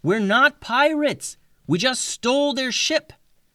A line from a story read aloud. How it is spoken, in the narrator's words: She yelled